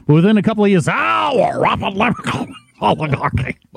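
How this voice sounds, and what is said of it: Phlegmy northeastern Bernie Sanders impression. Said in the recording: “had the phlegm in the back of his throat ... with his delightful northeastern accent ... Lobsterman accent”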